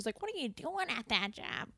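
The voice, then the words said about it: Imitates Marge Simpson's voice. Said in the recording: “I'm pretty good at that accent.”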